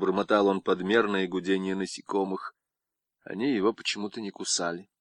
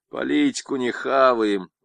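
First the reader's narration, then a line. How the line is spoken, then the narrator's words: Grumbling soldiers. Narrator (Russian): ворчали солдаты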